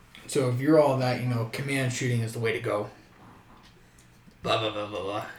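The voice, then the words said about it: Old man voice. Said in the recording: “That's my old man voice. ... It's your old man voice? ... That's my old man voice. ... Well executed.”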